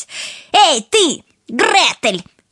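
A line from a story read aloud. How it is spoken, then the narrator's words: Shouted to sister. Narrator (Russian): крикнула она сестричке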